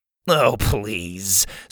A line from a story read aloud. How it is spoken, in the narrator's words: Sawyer scoffed